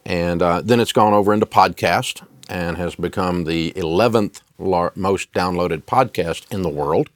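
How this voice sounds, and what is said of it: Southern Tennessee accent. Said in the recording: “hillbilly kid in Nashville, Tennessee, that had a horrible accent. Now, I've still got my accent, but I got rid of the horrible part.”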